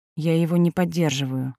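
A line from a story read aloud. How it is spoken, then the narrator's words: Quiet answer. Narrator (Russian): ответила она тихо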